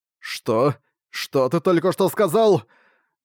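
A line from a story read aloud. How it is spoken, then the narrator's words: Booming voice. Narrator (Russian): Прогремел на всё лобби Global Access голос Арка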